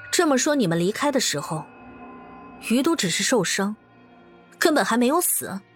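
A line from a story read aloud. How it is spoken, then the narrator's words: Deep, grave. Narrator (Chinese): 端木翠沉声道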